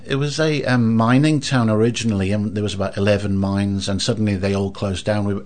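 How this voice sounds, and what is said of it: Welsh accent. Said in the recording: “the accent flags, you weren't born in New Zealand ... I came from a small village called Blaenau Ffestiniog in North Wales”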